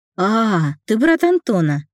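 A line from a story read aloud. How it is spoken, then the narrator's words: Cheerful declaration. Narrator (Russian): радостно заявил Давид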